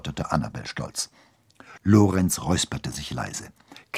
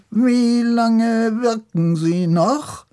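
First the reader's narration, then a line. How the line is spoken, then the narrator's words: Oddly squeaky voice. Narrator (German): fragte er mit merkwürdig piepsiger Stimme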